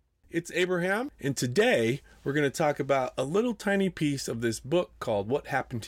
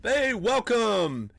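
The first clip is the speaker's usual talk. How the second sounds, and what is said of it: Yelling greeting. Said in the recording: “I don't know what we're yelling about!”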